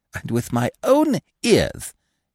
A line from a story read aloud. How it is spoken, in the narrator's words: he cried excitedly